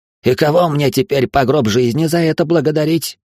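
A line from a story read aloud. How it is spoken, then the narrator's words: Angry bark. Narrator (Russian): Зло гаркнув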